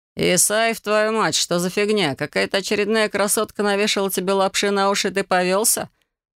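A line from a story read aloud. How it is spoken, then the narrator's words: Laughing. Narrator (Russian): Хохотнул он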